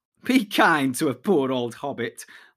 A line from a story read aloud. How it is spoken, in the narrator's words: laughed Frodo